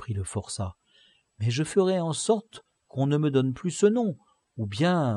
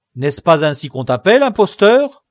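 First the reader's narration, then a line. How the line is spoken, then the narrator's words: Cried out, guard. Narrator (French): s'écria le gardien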